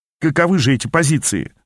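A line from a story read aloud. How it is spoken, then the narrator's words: Plain. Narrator (Russian): спросил я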